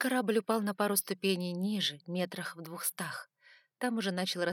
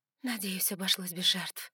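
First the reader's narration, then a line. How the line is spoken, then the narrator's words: Relieved exhale. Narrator (Russian): выдохнула я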